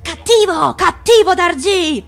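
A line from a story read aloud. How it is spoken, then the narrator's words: Yell. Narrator (Italian): urlò Nag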